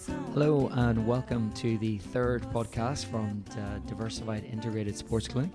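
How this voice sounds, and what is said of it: Slightly congested voice. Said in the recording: “Struggling a little bit today because I've got a bit of a cold”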